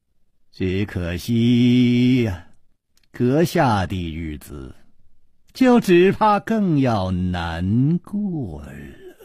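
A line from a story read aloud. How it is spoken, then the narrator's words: Faint detached smile. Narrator (Chinese): 吴居轩淡淡地笑着说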